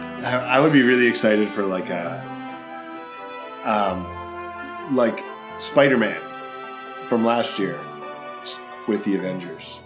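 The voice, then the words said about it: Hoarse, failing voice. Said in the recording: “I'm apparently losing my voice here.”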